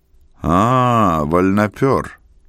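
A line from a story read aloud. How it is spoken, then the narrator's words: Condescending deep bass. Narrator (Russian): снисходительно пробасил он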